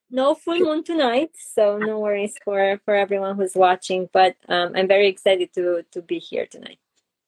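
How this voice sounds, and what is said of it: Romanian accent. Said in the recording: “where my accent is from, I'm originally from Romania, Europe. I'm from Transylvania”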